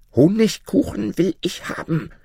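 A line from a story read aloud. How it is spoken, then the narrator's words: Shouting. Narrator (German): schrie Fatma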